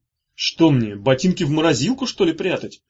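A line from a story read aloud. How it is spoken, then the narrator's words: Snapping retort. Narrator (Russian): огрызнулся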